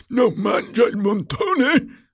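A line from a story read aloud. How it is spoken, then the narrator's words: Roaring. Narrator (Italian): avrebbe ruggito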